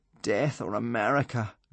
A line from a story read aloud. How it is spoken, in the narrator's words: groaned Hiccup, Fishlegs and Kamikaze